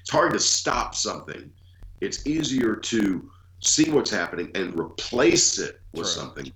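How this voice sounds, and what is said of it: Cold-affected voice, like Sam Elliott. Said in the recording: “does have a little cold, so he's sounding a little bit more like Sam Elliott.”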